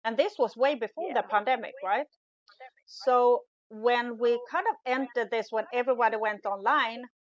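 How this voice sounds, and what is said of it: Non-native English accent. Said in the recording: “my accent, the way I showed up, the way I kind of look, sound”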